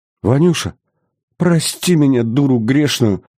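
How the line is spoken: Sobbing lament. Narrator (Russian): Всхлипнув, запричитала Мария Ярославна

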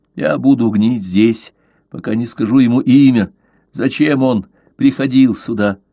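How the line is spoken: Growl. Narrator (Russian): рычание вырвалось из его горла

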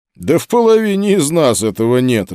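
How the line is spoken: Laughing. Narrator (Russian): рассмеялся я

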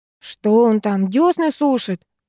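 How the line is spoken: Grumbling. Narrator (Russian): проворчала подруга

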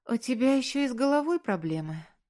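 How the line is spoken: Resigned sigh. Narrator (Russian): обреченно вздохнула

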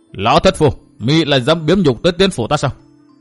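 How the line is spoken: Angry shout. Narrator (Vietnamese): Chu Sương nổi giận quát

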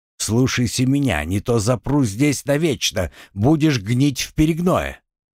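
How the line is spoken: Cat hissing. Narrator (Russian): Кошка вновь зашипела

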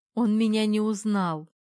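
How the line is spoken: Spoken through laughter. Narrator (Russian): произнесла сквозь смех

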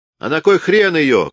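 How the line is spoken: Shout. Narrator (Russian): крикнул Пасынков

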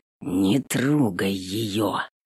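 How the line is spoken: Quiet hoarse rasp. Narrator (Russian): Хриплю тихо, не желая, чтобы услышала наш милый разговор

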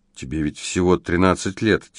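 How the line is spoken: Quiet. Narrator (Russian): тихо ответил Фредерик

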